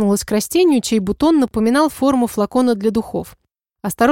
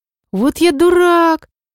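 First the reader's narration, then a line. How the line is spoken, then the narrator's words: Exclamation. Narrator (Russian): воскликнул Фейр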